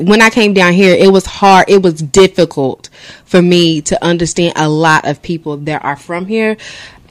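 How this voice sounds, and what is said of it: Country Kentucky accent. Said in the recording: “you don't sound like you're from Kentucky ... it's like, I'm country ... my mom says I talk country”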